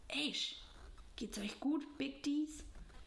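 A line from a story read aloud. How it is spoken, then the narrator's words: Quiet question. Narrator (German): fragte im Vorbeigehen leise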